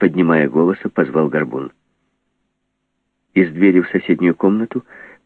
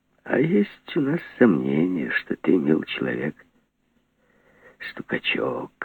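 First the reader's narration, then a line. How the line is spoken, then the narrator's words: Gentle, affectionate. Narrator (Russian): ласково сказал Горбун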